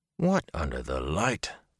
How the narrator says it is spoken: Tom murmured

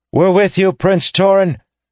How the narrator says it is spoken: shouted someone at the back

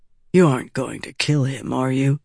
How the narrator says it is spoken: Vatha asked softly

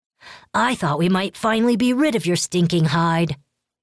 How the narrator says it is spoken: Lek yelled

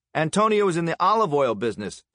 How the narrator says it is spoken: Stalin said, raising his voice so he could be heard above the music

